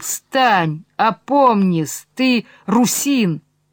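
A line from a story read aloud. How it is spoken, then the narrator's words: Crying out. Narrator (Russian): хочет вопиять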